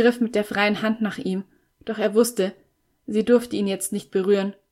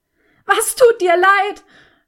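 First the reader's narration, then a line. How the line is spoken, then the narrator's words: Desperate dying roar. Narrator (German): brüllte sie ihn an mit der allerletzten Kraft eines Menschen, der sich dem Tod geweiht fühlt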